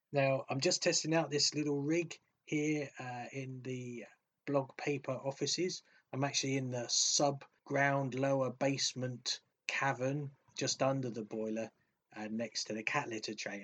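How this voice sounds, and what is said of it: Posh English accent. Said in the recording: “which sounds far too posh in my natural voice ... my posh English accent”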